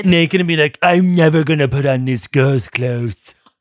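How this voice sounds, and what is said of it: Imitates another person's voice. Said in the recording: “that was a pretty good Trump impression.”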